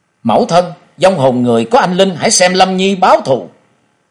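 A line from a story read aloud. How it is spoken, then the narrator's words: Grief-stricken indignant cry. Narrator (Vietnamese): Trần Lâm bì phẫn kêu lên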